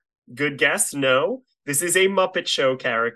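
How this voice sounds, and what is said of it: Usual voice. Nothing is said of it.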